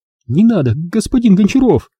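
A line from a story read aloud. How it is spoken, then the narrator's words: Passionate, slobbering plea. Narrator (Russian): Взмолилась она, страстно и слюняво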